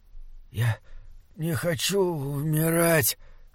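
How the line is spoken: Rasping dying voice. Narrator (Russian): хрипел Гримрик

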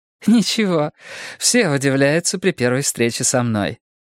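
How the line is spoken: Laughing. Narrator (Russian): рассмеялась Бетси

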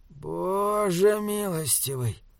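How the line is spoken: Whispering. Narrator (Russian): прошептал Мип

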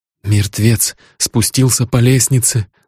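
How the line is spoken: Trembling voice. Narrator (Russian): дрожащим голосом произнес Грисвелл

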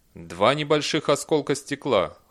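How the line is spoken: Cold robotic reply. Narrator (Russian): холодно ответил робот

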